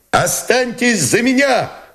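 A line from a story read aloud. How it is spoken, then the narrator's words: Hoarse shout. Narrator (Russian): Хрипло крикнул он парохонько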